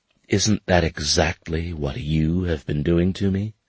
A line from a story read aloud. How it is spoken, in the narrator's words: she said in a calmer, accusatory voice